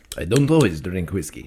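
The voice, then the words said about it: Put-on Russian accent. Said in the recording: “why do you do it in a Russian accent?”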